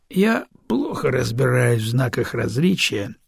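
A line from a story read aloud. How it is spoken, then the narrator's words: Lazy drawl. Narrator (Russian): лениво протянул Бедокур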